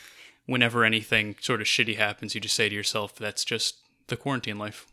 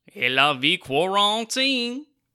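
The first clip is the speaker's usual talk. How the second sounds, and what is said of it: Exaggerated mock Creole accent. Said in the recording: “in an offensive Creole accent ... but in an offensive yep. Creole accent.”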